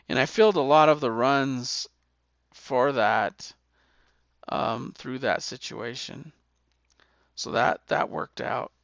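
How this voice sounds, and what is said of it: Hoarse, failing voice. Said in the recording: “Seems like I'm gonna lose my voice again ... I've had a cold for 6 weeks, and the cough hasn't really gone away”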